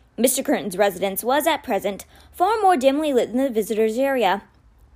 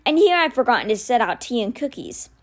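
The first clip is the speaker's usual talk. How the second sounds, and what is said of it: Gruff, cold male character voice. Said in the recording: “in a gruff voice remarkably similar to Mr. Benedict's own, although with none of the warmth”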